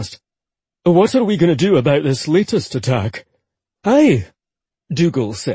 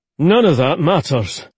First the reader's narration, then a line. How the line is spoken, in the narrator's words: Ollie said firmly